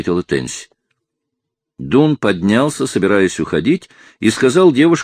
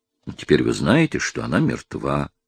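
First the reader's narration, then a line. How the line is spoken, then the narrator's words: Kind voice. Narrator (Russian): добрым голосом сказал Дун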